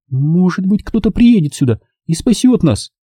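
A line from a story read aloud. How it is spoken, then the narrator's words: Timid suggestion. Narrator (Russian): робко предположила Нэнси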